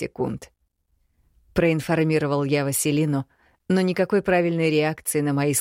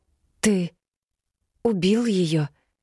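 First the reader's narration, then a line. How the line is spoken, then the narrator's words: Slightly hoarse question. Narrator (Russian): немного хрипло спросила Кирьяна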